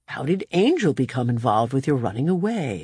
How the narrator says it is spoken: I purred

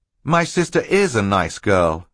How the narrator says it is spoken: Klaus said

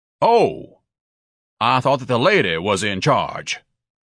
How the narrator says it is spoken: Ignatius said in his most stentorian voice

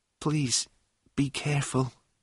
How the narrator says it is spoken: she whispered suddenly

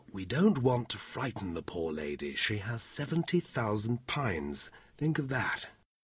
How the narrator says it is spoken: added quietly

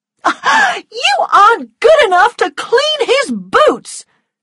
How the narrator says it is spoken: shouted

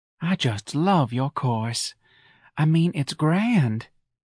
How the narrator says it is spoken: breathed

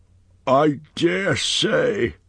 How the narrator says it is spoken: grumbled Pomba

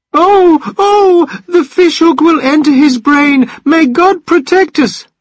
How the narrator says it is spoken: cried the old wife, hiding her head in her hands

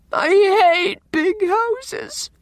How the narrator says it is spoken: sobbed Anne

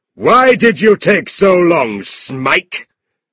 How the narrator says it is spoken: Squeers shouted

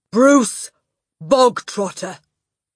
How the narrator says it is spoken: the Trunchbull barked suddenly

